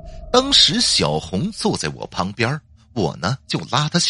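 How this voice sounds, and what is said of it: Usual voice. Nothing is said of it.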